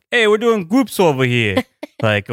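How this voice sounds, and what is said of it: Put-on Brooklyn tough-guy accent. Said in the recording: “The only accent I can do is more Brooklyn than it's Jersey ... So for me, mine's the like ... Tough guy”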